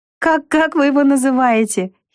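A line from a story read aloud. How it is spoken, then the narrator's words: Giggling. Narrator (Russian): хихикнула Вика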